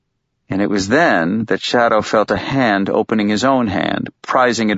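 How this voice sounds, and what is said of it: Usual voice. Nothing is said of it.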